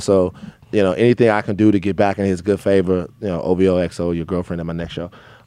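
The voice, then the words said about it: Drake impression. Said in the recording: “That's a pretty good impression.”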